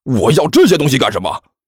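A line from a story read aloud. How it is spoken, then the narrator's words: Furious. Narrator (Chinese): 那人顿时勃然大怒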